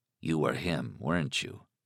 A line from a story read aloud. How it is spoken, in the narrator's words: Alan said softly